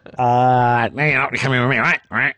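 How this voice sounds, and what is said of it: Imitates another person's voice. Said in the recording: “that's a very bad impersonation of Randy”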